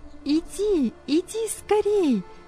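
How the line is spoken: Shouting from the shore. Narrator (Russian): кричали с берега

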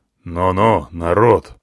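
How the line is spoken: Stern elephant. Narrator (Russian): строго сказал слон

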